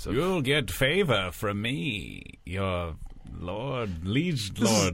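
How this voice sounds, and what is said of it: Bad put-on colonel character voice. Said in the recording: “The worst accent that I've ever heard you do. This is the worst Daryl Hammond as the colonel ever.”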